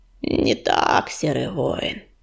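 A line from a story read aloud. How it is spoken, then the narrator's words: Creaky voice. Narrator (Russian): проскрипела полночь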